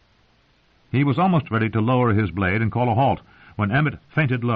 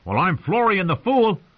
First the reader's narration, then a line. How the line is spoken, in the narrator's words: John would call out, and Rob would shout back